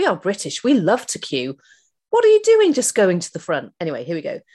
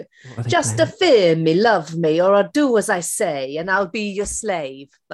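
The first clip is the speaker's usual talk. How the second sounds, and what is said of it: Terrible put-on Italian accent. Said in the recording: “my terrible Italian accent”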